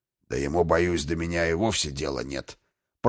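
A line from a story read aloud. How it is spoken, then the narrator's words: Flattered muttering. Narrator (Russian): пробормотал польщенный гном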